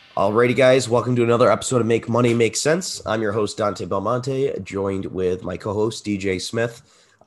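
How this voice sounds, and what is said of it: Raspy, congested voice. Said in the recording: “My voice also sounds a little bit raspy. ... I'm getting over a cold at the moment. ... I'm all congested a little bit”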